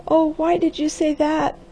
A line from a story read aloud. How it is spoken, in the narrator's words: wailed the girl